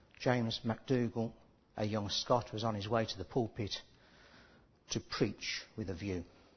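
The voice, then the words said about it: Put-on Scottish accent. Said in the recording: “my apologies at this point for anybody who has got Scottish ancestry, for my accent.”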